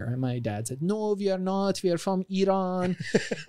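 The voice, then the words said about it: Put-on accent quoting someone. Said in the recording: “your accent is spot on, by the way, when you turn it on.”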